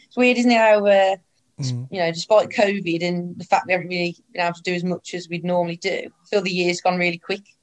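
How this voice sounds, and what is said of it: Strong, hard-to-follow regional accent. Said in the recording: “they're still grasping my accent at times. even some of the players still.”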